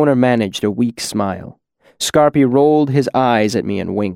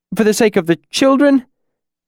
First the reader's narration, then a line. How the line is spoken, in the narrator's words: the bald man pleaded